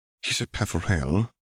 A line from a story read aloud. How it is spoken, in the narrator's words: he murmured